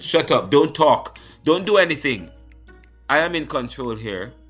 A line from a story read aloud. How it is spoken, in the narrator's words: shouted